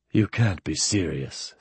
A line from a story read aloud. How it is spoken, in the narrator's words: said Mike, in a soft voice that was suddenly quite sober